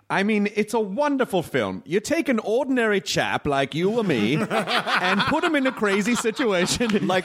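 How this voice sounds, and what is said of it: Transatlantic old-Hollywood accent impression. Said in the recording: “Pan-Atlantic accent”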